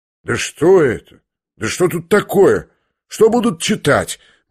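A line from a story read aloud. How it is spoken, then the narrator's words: Gloomy muttering. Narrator (Russian): мрачно бормотали некоторые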